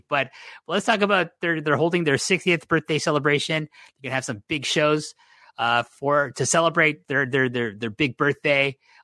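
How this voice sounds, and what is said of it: Hoarse voice. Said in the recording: “my voice is getting kind of hoarse”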